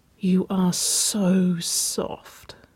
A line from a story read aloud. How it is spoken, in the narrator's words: Waverly murmured